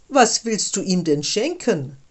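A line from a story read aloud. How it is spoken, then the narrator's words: Mocking, several voices. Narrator (German): spotteten sie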